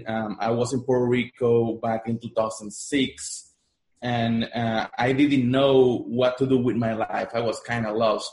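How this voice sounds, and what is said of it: Spanish-influenced English accent. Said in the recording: “I'm Puerto Rican. That's why I have an accent, because my first language is Spanish.”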